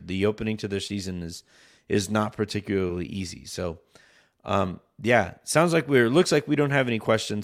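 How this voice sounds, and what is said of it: Strained, worn-out voice. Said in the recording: “give my voice the mercy of sleep and hopefully get better”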